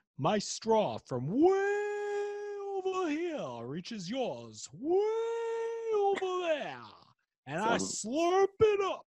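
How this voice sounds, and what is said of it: Daniel Day-Lewis impression. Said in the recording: “I thought I knew who Daniel Day-Lewis was before that impression.”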